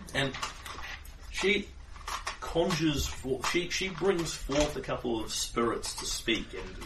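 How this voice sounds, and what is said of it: Usual voice. Nothing is said of it.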